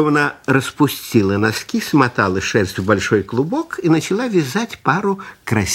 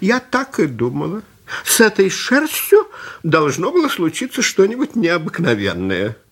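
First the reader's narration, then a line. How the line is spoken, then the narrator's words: Old woman exclaiming. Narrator (Russian): Старушка воскликнула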